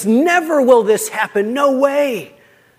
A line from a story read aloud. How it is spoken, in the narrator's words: Peter then exclaims